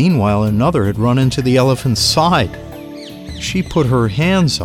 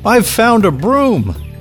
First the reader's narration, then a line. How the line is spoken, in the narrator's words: shouted